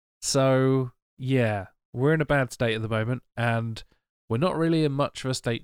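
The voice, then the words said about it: Audibly sick voice. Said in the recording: “As you can probably hear by my voice, I currently have COVID-19.”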